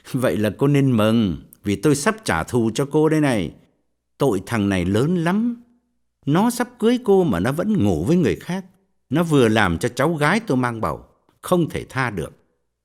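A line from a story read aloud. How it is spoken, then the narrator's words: Scornful. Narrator (Vietnamese): Quân cười khẩy bảo cô gái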